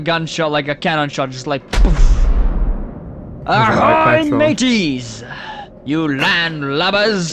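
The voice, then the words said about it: Put-on pirate accent. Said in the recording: “in a pirate accent”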